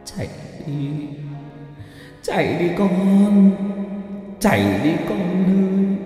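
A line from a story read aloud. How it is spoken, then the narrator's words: Anguished sobbing old woman's cry. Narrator (Vietnamese): Cụ Mai gào thét lên trong đau đớn, khóc lóc thảm thiết, nói với con dâu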